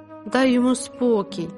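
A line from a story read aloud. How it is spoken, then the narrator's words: Plain. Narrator (Ukrainian): сказала Тереза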